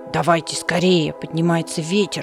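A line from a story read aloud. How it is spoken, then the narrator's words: Hedgehog grumbling. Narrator (Russian): проворчал ежик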